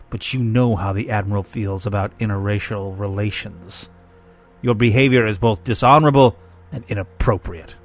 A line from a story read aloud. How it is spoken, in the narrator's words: snarled